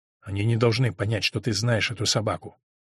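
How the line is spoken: Very quiet. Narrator (Russian): очень тихо сказал он

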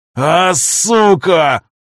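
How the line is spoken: Roar like wounded bear. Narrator (Russian): Раненым медведем взревел Виктор

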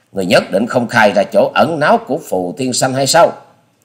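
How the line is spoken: Harsh forceful shout. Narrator (Vietnamese): Hoa Sĩ Kiệt dằn giọng quát

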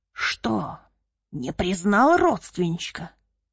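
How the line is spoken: Hoarse menacing rasp. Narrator (Russian): хрипел он в лицо Николаю

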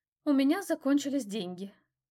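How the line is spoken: Breathed out finally. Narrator (Russian): наконец выдохнула

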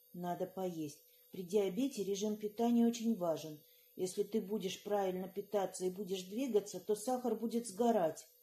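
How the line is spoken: Sighing whisper. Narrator (Russian): вздохнув, прошептала

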